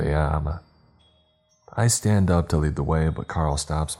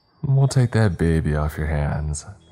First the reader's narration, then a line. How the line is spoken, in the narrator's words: he says